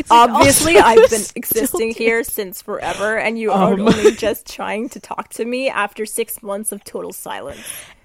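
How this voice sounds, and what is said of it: Impression of Camney. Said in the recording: “my real impression of Camney. Okay, it sounds a little bit like this.”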